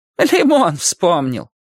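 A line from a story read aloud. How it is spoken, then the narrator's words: Speaking then laughing. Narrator (Russian): сказала она и засмеялась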